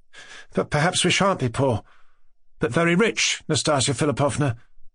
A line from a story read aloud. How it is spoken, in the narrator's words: Mushkin went on in the same timid voice